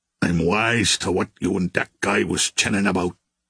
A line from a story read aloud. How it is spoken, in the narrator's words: growled